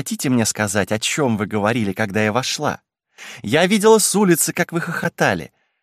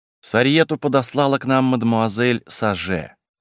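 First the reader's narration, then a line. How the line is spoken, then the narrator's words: Dry. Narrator (Russian): сухо заметила Лиза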